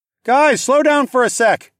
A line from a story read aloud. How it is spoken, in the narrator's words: I hollered